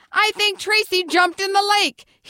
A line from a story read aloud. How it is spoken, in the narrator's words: he shouted